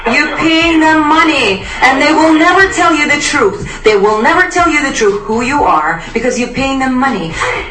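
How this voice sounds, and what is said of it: Foreign accent, broken English. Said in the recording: “that foreign accent ... your broken English”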